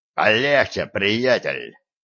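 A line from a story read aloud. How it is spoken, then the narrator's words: Barking. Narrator (Russian): рявкнул Дикс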